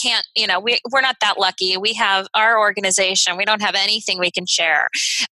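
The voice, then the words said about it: Bad impression of a conference attendee. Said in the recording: “I just did a bad impression of anybody out there”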